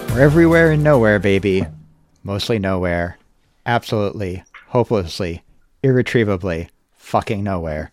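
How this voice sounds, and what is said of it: American accent. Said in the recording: “with an American accent”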